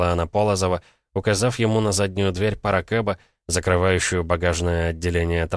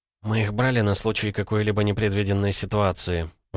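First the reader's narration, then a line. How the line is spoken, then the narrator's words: Sighing. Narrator (Russian): вздохнула она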